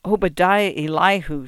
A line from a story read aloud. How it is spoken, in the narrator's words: she said in a reverent voice